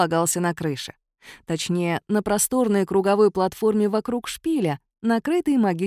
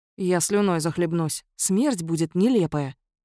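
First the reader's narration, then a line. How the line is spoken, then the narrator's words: Sighing. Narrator (Russian): вздохнул Кловис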